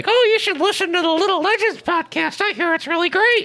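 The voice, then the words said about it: Silly Mickey Mouse cartoon voice. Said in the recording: “Why are you making that stupid voice? And very clearly trying to make it sound like someone else is saying that ... Mickey Mouse”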